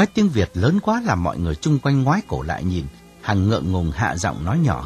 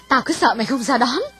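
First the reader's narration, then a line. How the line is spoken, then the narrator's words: Loud excited joy. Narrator (Vietnamese): Hằng hớn hở nói lớn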